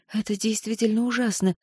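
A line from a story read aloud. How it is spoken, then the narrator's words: Quiet. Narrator (Russian): произнесла она негромко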